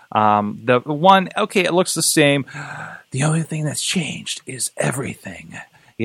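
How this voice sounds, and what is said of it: Breathy voice. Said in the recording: “You have to say that in a breathy voice.”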